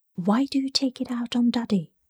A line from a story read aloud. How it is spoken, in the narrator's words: whispered